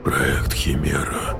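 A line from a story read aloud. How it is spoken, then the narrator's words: Whispered. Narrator (Russian): прошептал Вержбицкий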